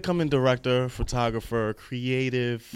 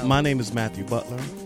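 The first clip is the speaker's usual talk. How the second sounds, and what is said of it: Deep sultry radio-announcer voice. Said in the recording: “Why are you doing a sexy radio voice?”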